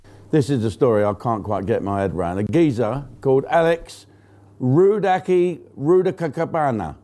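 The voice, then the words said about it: London Cockney accent. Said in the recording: “the accent, the London accent, the Cockney accent”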